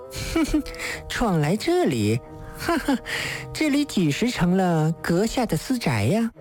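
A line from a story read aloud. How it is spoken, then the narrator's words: Coquettish mocking laugh. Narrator (Chinese): 女子浪虐笑道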